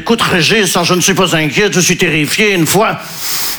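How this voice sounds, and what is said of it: Put-on Belgian accent. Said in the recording (French): “je prends l'accent belge parce que je ne sais pas faire l'accent ukrainien”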